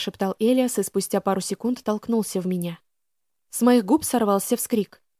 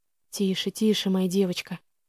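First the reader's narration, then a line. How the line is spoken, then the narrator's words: Tender whisper. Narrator (Russian): ласково шептал он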